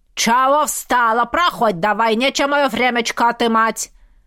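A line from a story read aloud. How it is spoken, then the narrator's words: Bark. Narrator (Russian): рявкнула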